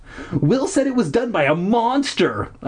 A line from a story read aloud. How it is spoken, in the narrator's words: I exclaimed